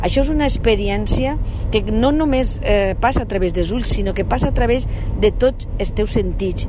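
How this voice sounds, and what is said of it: Valencian Catalan accent. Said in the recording (Catalan): “aquest accent,⟧ eh? Valencià també”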